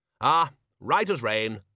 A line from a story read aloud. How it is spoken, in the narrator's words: said Ridcully cheerfully